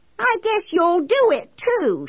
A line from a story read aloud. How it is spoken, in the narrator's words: she yelled back at me